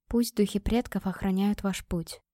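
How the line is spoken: Whispered. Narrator (Russian): прошептала

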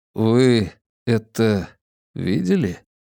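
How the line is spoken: Quiet question. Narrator (Russian): Негромко поинтересовался Де Соя

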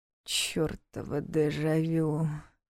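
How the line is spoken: Groaned. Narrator (Russian): простонала Диана

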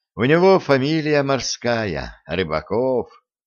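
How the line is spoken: Lazy tone. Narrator (Russian): лениво сказал Коля

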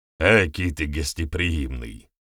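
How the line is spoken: Amused snort. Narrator (Russian): смешливо фыркнул Вернедуб

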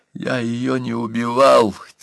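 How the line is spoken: Quiet trembling secretary. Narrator (Russian): тихим и дрожащим голосом завел секретарь

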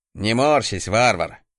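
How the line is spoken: Good-natured man's snort. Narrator (Russian): добродушно хмыкнул мужик

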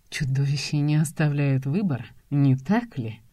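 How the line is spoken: Hoarse whisper close by. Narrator (Russian): Раздается хриплый шепот у моего уха

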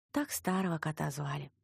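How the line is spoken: Sighing. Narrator (Russian): вздохнула белобрысая

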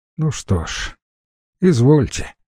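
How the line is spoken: Sighing. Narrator (Russian): вздохнул Курочкин

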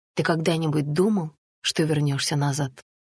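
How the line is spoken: Plain. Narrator (Russian): спросила Анна

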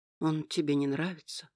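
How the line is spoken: Sad question. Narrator (Russian): грустно спросил Нейтан

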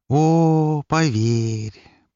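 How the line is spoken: Drawling. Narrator (Russian): протянул Лар

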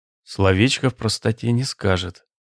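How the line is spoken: Muttering. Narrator (Russian): пробормотал он

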